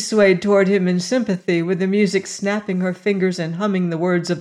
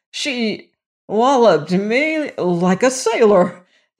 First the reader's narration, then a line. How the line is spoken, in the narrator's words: the young man stammered incoherently